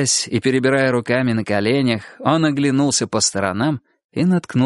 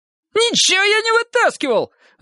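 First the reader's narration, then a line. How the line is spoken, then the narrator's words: Shrill squeal. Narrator (Russian): взвизгнул Лысый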